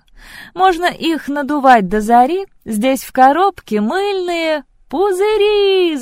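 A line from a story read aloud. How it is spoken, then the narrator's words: Shouting in chorus. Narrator (Russian): закричали все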